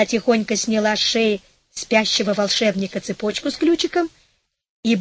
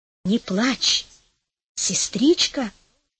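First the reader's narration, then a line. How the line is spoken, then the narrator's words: Whisper. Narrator (Russian): прошептала Розалинда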